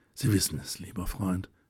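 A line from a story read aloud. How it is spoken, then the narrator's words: Replied equally quietly. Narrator (German): erwiderte Helene ebenso leise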